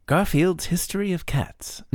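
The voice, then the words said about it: David Attenborough impression. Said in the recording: “do you want to do it in a David Attenborough voice ... I don't know if I can do a David Attenborough.”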